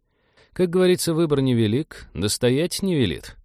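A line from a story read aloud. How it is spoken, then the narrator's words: Tired reply. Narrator (Russian): устало отозвался Вениамин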